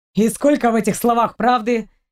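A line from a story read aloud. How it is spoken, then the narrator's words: Angry reply. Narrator (Russian): сердито отозвался Торн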